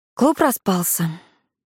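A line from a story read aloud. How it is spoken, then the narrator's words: Sighing. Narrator (Russian): вздохнула Карина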